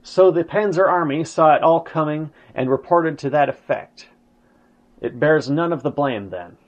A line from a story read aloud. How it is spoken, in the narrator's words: He exclaimed